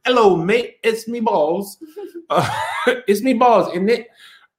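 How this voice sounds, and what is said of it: Put-on British accent. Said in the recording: “a British accent.”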